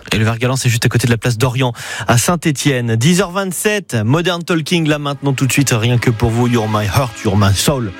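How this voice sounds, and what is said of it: Regional French accent. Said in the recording (French): “Je sais, j'ai l'accent, je sais.”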